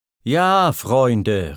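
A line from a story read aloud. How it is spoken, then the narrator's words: Male call. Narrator (German): rief er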